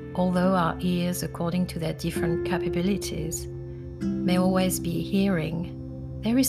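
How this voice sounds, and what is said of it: Foreign accent. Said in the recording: “you can hear I have an accent ... most bilinguals have an accent in one of their languages”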